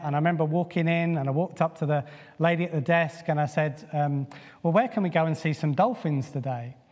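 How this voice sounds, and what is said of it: British accent. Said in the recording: “it's probably my British accent.”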